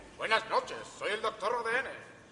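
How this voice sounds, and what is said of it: Put-on Russian accent. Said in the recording (Spanish): “¡No soy ruso! ... Tengo este acento. Porque bebí mucho vodka en un campamento.”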